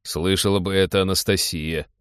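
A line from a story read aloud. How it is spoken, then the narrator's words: Snorted. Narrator (Russian): хмыкнул Теодор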